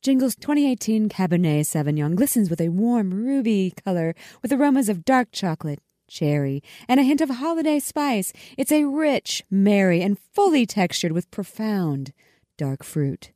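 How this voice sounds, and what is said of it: Mock commercial announcer voice. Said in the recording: “let me put my announcer voice ... on ... I'll do my best Hallmark voice ... You have a better announcer voice than I do”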